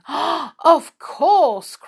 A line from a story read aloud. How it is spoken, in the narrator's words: cried the children in delight